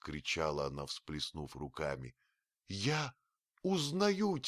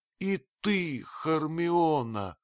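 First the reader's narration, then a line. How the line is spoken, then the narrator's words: Groaning. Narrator (Russian): простонала она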